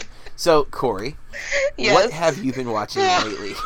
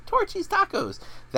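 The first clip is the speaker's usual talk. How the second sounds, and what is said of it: Imitates another person's voice. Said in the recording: “That is not a good Emily Blunt impression. ... That was a great impression.”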